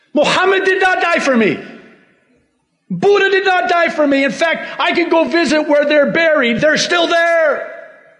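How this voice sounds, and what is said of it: Yelling, loud raised voice. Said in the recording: “I'm sorry I'm yelling.”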